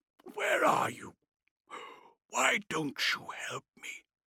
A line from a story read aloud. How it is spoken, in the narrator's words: whispered